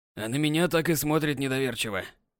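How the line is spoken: Old man's grumble. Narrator (Russian): пробурчал дед

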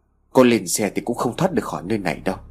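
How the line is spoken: Weary, fed-up. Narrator (Vietnamese): Thằng Thuận nói bằng giọng ngán ngẩm

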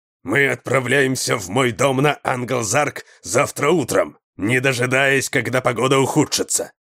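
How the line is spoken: Angry bark. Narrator (Russian): рявкнул он, сердито

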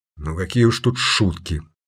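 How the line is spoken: Grumbling. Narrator (Russian): проворчал голос

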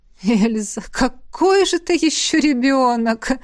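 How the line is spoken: Sudden laughter. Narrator (Russian): Неожиданно рассмеялась ректор

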